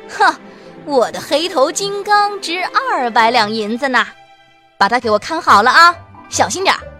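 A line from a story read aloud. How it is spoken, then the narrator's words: Smug, loud. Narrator (Chinese): 罗公子得意至极，大声地对仆人说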